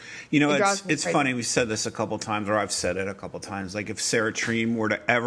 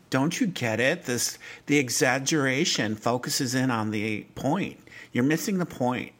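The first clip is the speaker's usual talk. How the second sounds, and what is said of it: Impression of Sarah Treem. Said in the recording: “Is that Sarah Treem's accent? ... Yeah, that was her. I was channeling her.”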